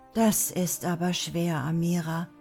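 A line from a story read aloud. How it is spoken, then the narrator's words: Sighing. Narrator (German): meinte er seufzend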